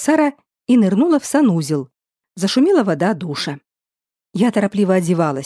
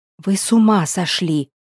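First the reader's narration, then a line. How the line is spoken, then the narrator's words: Whispered. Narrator (Russian): шепотом сказала Оля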